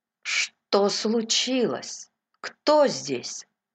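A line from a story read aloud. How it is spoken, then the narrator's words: Trembling-voiced question. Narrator (Russian): Трефи дрожащим голосом спросил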